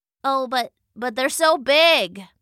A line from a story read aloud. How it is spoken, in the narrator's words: called out another mouse